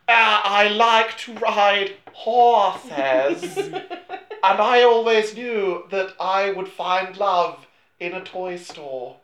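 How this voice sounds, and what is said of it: Bad fake British accent. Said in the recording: “doing her best genuine fake British accent ... doing an impression, a bad impression of her own bad British accent”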